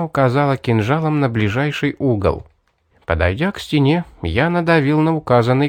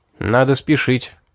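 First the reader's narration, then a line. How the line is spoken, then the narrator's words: Plain. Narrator (Russian): сказал я девушке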